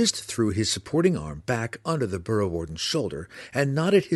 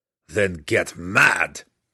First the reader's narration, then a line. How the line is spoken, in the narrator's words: Belwar growled